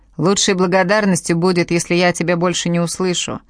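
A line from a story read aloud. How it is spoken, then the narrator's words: Chuckling. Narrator (Russian): хохотнул он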